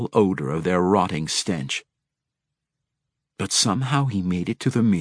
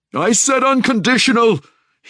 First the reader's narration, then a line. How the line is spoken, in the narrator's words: he shrieked